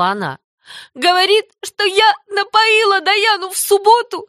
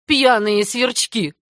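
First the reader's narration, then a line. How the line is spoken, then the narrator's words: Gruff grumble. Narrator (Russian): буркнула Марилла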